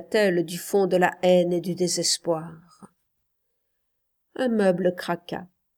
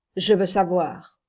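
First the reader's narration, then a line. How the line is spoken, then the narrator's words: Plain. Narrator (French): dit-il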